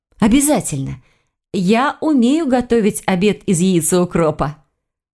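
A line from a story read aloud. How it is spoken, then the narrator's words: Forced cheerful tone. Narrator (Russian): Она постаралась, чтобы прозвучало это весело и без сарказма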